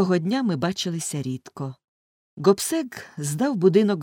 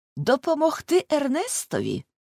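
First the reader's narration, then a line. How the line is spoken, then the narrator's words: Exclaimed. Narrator (Ukrainian): вигукнув Гобсек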